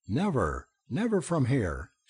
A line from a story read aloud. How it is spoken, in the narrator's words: she cried out